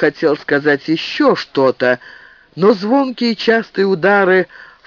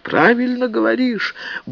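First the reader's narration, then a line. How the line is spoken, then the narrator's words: Sigh. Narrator (Russian): Губарев вздохнул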